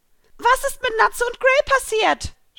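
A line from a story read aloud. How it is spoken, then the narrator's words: Shouted outward. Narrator (German): schrie ich nun hinaus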